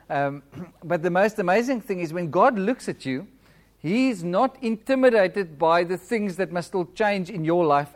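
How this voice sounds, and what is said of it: Flat accent. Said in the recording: “Must I speak a little bit slower with my accent? Okay, I've got quite a flat accent ... I speak like flat”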